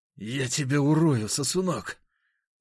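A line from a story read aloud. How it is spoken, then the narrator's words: Spiteful, through teeth. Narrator (Russian): злобно процедил он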